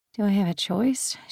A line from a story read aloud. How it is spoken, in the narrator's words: She muttered, but Dimitri still heard